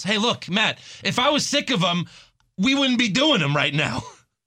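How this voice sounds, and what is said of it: Put-on New York accent. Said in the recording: “He went to New York accent. You can tell he's really pissed off right now.”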